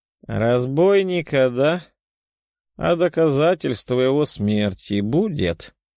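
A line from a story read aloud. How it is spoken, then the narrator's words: Lazy muttering. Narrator (Russian): Лениво пробормотал средних лет мужчина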